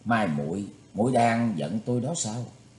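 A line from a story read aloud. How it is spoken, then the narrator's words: Gentle, troubled. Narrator (Vietnamese): Thủy Tuấn Hạo nhíu mày nhưng giọng vẫn nhẹ nhàng nói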